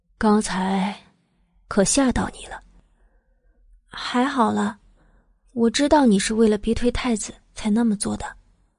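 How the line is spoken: Soft voice from above. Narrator (Chinese): 头顶响起他软软的话

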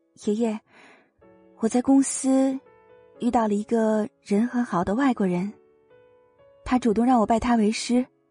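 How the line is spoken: Soft. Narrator (Chinese): 徐萱萱 轻声的说道

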